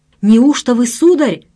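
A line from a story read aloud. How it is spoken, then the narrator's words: Loud shout. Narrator (Russian): закричал я так, что цепь на мне зазвенела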